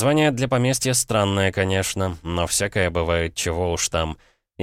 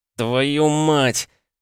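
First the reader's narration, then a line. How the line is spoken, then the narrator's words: Through gritted teeth. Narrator (Russian): процедил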